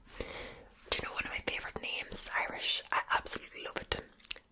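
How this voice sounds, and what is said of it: Put-on fast, relaxing Irish accent. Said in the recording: “the Irish accent ... It's quite fast ... the whole point of this accent is meant to relax you”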